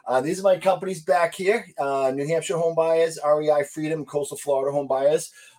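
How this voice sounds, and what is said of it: Thick Boston accent. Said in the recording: “a thick Boston accent”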